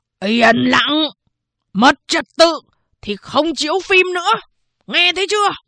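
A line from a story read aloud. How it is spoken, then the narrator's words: Guard shouting. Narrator (Vietnamese): Một vệ sĩ hét lên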